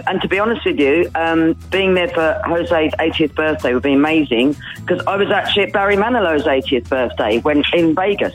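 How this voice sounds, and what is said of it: Slight regional accent. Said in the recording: “I hear a bit of an accent there.”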